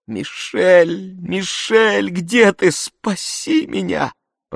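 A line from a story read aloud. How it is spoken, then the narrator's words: Moaning plea. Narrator (Russian): простонала я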